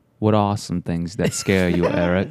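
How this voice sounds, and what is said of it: British accent. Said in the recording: “Say it in a British accent.”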